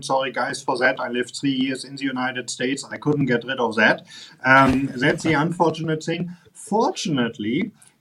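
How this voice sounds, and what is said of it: Strong German accent. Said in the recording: “you can hear I have a very strong German accent”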